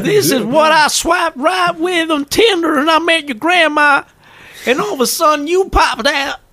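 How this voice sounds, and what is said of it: Put-on Texas accent. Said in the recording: “For some reason, I've got a Texas accent”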